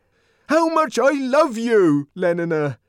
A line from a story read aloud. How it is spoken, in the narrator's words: he brought out almost desperately